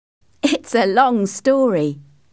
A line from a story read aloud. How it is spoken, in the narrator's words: I laughed